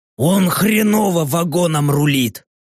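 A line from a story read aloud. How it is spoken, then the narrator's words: Grumbling. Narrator (Russian): проворчал орк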